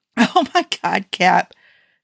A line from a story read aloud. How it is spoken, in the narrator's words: Tony wheezed